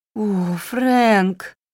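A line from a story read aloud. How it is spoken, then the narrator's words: Pleading. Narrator (Russian): взмолилась она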